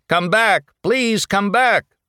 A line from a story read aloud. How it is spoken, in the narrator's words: He shouted aloud